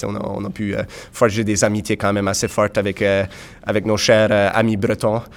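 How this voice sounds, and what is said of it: Acadian French accent from Nova Scotia. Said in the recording (French): “comme vous pouvez sûrement entendre, on a un accent très particulier, les Acadiens de la Nouvelle-Écosse”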